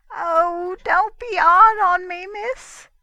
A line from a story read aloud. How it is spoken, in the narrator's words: whimpered the man